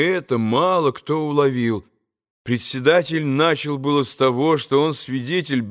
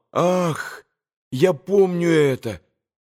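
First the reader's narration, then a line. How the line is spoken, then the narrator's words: Moan. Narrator (Russian): простонал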